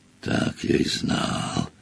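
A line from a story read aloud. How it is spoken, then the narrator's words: Whisper. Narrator (Russian): прошептал Хагрид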